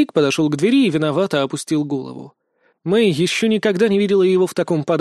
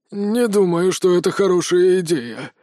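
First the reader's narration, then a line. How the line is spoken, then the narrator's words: Wary exhale, old man. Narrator (Russian): опасливо выдохнул дед-наркоман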